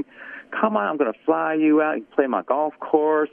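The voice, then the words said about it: Imitates a Kentucky Southern accent. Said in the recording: “Nice Kentucky Southern accent.”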